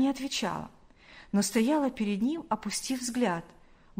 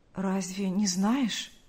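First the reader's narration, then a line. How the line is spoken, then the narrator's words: Trembling voice. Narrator (Russian): произнес Павел дрогнувшим голосом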